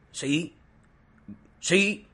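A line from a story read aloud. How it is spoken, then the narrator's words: Shouted. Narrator (Spanish): gritó Barenuja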